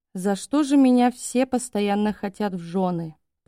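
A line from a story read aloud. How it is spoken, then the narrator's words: Muttered. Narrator (Russian): пробормотала Гили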